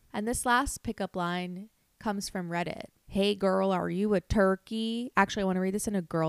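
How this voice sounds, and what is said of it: Usual voice. Nothing is said of it.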